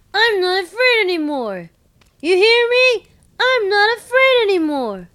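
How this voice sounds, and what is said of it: Imitates a film character's voice. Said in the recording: “my Kevin impression ... It's very good.”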